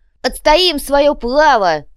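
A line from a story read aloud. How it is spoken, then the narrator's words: Worked-up barking. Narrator (Russian): рявкнул разошедшийся копыта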